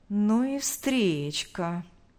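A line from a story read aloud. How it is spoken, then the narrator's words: Drawling. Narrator (Russian): протянул Павел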